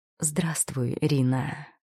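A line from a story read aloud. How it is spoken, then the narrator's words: Silky, insinuating, chilling voice. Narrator (Russian): шелковистым, пробирающим до мурашек вкрадчивым голосом произнес Демиар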